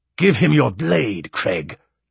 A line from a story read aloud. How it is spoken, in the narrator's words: snapped Bertol